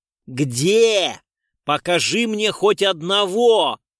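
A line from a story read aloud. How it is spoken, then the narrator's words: Yelling. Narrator (Russian): вопил урод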